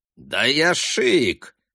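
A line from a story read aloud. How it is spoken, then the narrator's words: Indignant protest. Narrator (Russian): возмущенно отбивается Бобби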